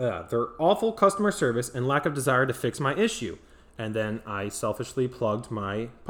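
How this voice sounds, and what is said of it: Usual voice. Nothing is said of it.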